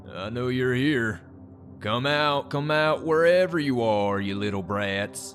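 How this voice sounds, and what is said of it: Drunken slurred man's voice. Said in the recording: “a man spoke in a drunken voice”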